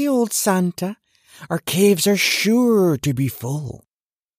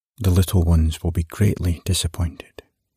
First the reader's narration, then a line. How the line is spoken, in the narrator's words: murmured the demon of repentance almost regretfully